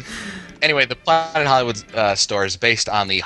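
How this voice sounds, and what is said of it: Usual voice. Nothing is said of it.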